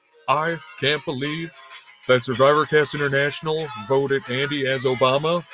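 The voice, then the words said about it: Imitates another person's voice. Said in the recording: “my Obama impression”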